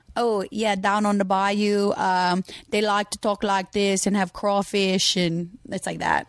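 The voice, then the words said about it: Slow put-on Cajun accent. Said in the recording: “Can you do a Cajun accent? ... it's really good. ... It's very, like, a little slow.”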